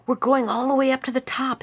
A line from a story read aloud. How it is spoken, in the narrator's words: exclaimed a small boy proudly